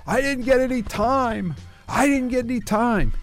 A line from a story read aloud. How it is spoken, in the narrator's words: he was yelling